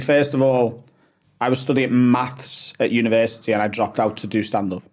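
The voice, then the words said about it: Liverpool accent. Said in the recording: “someone with my accent, a working class lad from Liverpool in England”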